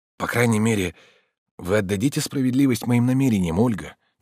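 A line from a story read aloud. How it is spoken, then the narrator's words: Quiet speech. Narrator (Russian): тихо говорил он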